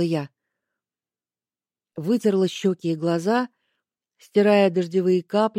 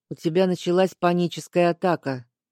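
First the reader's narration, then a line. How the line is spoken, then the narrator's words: Gloomy. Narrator (Russian): мрачно сообщил Аскольд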